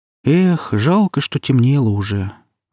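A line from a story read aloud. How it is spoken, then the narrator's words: Young woman's disappointed sigh. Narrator (Russian): разочарованно вздохнула девушка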